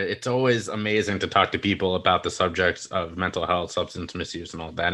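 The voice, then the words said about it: American accent. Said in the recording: “I clearly from my accent, I'm not English. I'm over here in the US”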